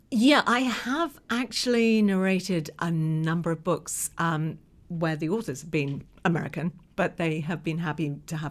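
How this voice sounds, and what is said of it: English accent. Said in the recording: “you might be able to tell from my accent that I was actually born here... an English voice”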